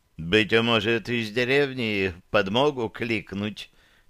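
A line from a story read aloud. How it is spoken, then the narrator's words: Businesslike, timid inquiry. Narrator (Russian): деловито осведомился Тоннис, робко приближаясь еще на шаг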